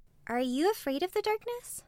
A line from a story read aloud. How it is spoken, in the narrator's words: She asked softly